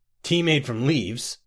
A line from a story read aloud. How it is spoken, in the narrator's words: scoffed the first diplomat